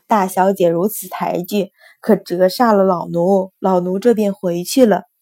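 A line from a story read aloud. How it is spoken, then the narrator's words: Loud, cheerful. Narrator (Chinese): 罗妈妈已经收拾脸上的漆容，换上一张笑脸，大声道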